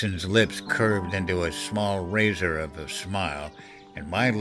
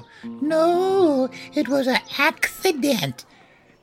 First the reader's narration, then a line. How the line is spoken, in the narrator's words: Jerry crooned in a lisping falsetto